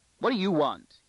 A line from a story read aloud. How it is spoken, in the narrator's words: he snapped